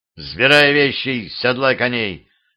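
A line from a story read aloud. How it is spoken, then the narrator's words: Growled. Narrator (Russian): рыкнул боярский сын на Семена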